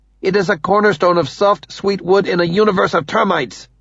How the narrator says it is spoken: Ninomaya snaps

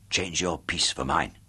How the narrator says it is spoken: whispered softly to Chubby

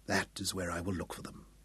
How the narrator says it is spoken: he whispered

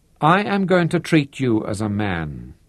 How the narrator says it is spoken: said

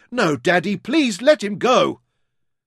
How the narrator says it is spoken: Louisa screamed as loudly, and Verity shouted

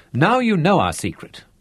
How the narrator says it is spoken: laughed

